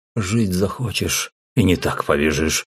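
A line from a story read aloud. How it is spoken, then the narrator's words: Tired. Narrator (Russian): устало повторил я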